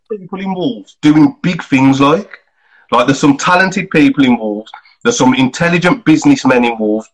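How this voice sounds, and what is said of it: Wolverhampton accent. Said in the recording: “I think it's the accent ... It's the accent, man ... I have in that voice deal with my banking”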